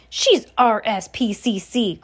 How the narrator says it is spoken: cried Mr

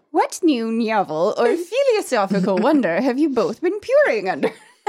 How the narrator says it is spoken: I asked quite gaily

